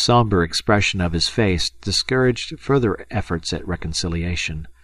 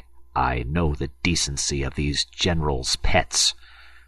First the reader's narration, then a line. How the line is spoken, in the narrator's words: muttered Lieutenant Feraud through his teeth